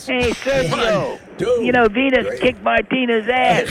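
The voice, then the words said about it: Put-on New York accent. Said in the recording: “New York ... accent.”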